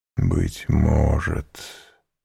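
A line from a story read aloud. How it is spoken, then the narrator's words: Deeply sad whisper. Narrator (Russian): прошептал он с глубокой печалью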